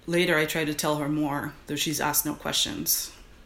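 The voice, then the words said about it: Put-on masculine dude voice. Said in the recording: “This is my dude voice. I hope it's okay that I'm reading this in my dude voice.”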